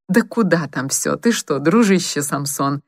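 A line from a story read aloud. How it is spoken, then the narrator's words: Laughing. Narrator (Russian): засмеялся Силуянов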